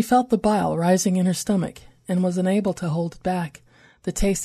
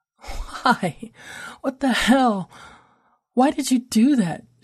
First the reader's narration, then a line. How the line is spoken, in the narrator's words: coughed between retches, choking on tears